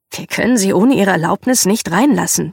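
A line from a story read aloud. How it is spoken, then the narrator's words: Plain. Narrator (German): sagte er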